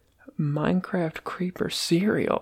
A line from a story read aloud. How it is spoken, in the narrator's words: he murmured